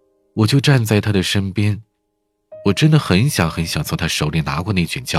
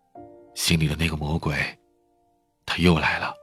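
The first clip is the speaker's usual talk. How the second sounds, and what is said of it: Quiet, hushed speech. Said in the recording (Chinese): “小声的说”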